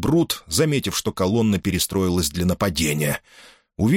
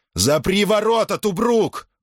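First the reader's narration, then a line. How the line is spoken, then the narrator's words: Shouted. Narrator (Russian): крикнул Марк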